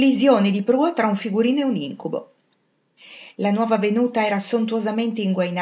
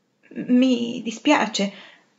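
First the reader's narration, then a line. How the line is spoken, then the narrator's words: Stammered. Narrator (Italian): balbettò Anna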